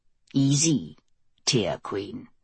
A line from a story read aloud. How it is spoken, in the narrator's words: a voice murmured in her ear